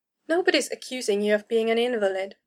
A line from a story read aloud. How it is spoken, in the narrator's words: Zed said, far more gently than the Seeker